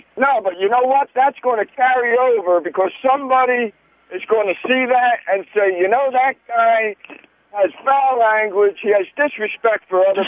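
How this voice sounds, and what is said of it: Philadelphia accent. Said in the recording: “He's got an accent. He's probably from Philadelphia.”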